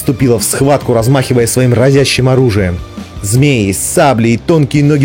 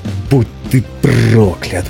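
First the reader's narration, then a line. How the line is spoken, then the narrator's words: Growl. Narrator (Russian): прорычала Бриза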